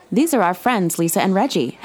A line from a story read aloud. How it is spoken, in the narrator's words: Henry said